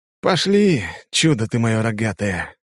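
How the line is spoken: Sighed. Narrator (Russian): вздохнул я

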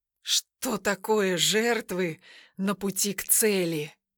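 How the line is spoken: Gloomy. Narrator (Russian): проговорил он мрачно

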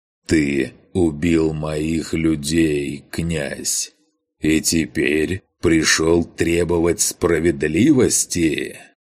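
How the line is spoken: Slow, measured words. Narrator (Russian): Грон медленно, разделяя слова, произнес

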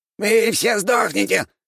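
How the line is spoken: Squeaky rat voice. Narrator (Russian): пропищала крыса

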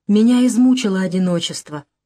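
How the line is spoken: Plain. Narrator (Russian): говорит он

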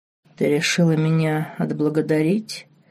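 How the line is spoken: Low husky coo. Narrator (Russian): Низким хриплым голосом проворковал на ухо Марк

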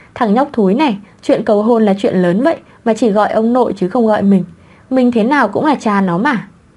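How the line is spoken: Muttering father. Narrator (Vietnamese): Cha Quý ... lầm bầm, thầm nghĩ

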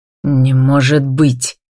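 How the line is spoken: Irritated, curt. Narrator (Russian): раздраженно отрезает Лиам

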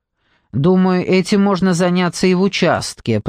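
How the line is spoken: Grumbling mutter. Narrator (Russian): пробурчал Марлоу

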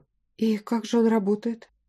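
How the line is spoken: Sighing. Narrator (Russian): вздохнула

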